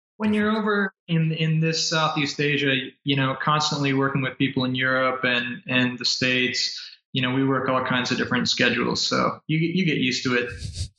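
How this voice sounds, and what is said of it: American accent. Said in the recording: “you're from the States originally, I can tell by the accent.”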